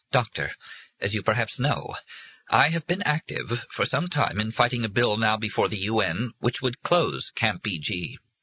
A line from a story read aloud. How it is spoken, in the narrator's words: in a quavering voice, she said